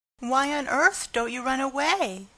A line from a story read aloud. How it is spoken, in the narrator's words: exclaimed the horrified Pigling